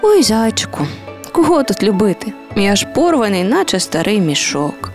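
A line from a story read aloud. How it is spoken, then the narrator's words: Teddy bear, sad voice. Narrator (Ukrainian): вимовив сумним голосом ведмедик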